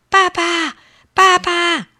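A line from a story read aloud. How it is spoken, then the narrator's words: Loud shout. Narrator (Chinese): 他大声喊起来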